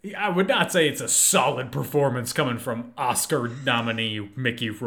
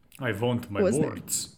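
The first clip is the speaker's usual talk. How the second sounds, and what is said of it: Put-on KGB agent accent. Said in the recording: “He is doing the exact same accent that I did in my high school production ... where I play like a KGB agent”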